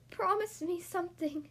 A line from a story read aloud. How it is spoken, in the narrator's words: she begged her husband